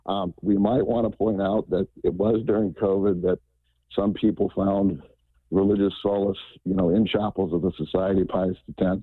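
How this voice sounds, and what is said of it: Hoarse, strained voice. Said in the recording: “I'm losing my voice here.”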